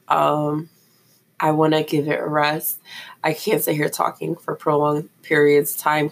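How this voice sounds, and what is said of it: Strained voice cutting in and out. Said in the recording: “my voice is in and out”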